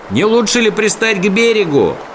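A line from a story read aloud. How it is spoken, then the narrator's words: Shouting over noise. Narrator (Russian): прокричал Сниф сквозь гул реки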